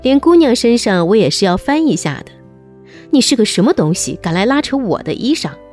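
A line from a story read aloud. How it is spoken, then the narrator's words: Furious. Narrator (Chinese): 探春狂怒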